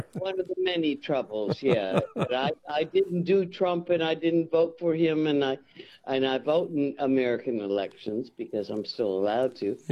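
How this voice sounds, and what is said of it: American accent. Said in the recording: “having an American accent”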